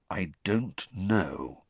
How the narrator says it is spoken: said Sirius slowly

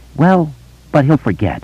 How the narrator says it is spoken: he told himself uneasily

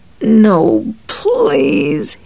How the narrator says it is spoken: he moaned

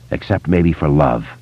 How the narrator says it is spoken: Ben said

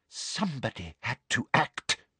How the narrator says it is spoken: breathed Umbridge

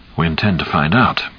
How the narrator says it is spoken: Cap said softly

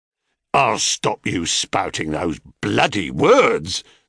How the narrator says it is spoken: snarled the ugly sailor

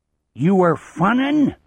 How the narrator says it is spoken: the chief roars

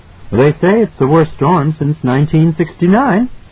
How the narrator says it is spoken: she answered brightly

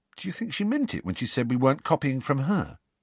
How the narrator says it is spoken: he added, in a slightly more anxious tone

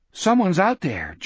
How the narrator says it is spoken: George said, nervously

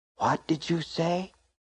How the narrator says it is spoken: She whispered

